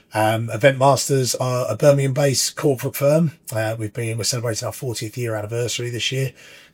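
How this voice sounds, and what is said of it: Husky non-local regional accent. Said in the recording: “You can probably tell by my quite husky accent... I'm not from that round these neck of the woods”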